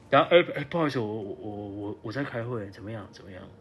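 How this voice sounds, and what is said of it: Muffled, quiet pretend whisper. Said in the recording (Chinese): “还要嘴巴捂住那个手要捂住嘴巴...假装要讲话很小声”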